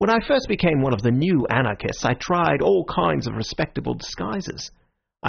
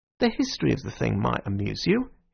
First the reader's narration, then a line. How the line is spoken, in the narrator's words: he said